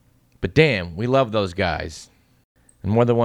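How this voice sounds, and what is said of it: Usual voice. Nothing is said of it.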